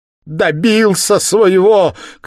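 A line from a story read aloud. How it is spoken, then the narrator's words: Anguished woman's cry. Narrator (Russian): крикнула Катерина Ивановна, увидав труп мужа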